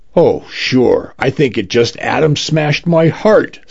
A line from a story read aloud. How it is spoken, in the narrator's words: says Denise